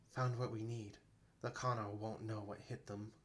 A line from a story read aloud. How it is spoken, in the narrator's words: Ovnis said quietly